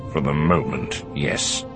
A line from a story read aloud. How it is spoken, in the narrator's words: he said, his voice icy